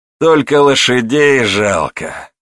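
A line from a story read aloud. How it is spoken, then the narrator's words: Sad remark. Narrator (Russian): грустно заметил Петр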